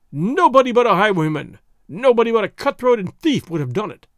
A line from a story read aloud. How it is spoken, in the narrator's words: he cried aloud